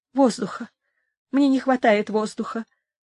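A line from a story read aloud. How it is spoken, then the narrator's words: Moaning. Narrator (Russian): стонала Инесс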